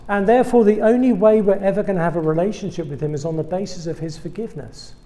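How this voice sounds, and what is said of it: British English accent. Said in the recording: “I'm British. You probably picked that one up by now. ... That was not a South Dakota accent you've been hearing this evening. I'm from England.”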